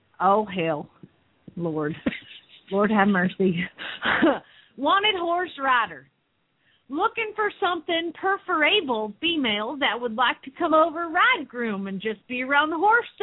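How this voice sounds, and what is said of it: Put-on Southern US accent. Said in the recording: “do your southern accent”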